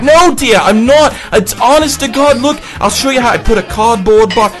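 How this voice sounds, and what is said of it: Put-on Australian accent. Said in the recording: “That's an authentic Australian accent, I must say.”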